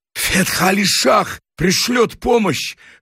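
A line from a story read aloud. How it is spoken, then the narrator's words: Hoarse. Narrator (Russian): хрипло сказал Рустамбек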